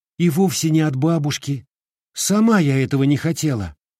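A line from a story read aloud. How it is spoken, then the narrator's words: Fervent spirited exclamation. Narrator (Russian): Горячо с задором воскликнула она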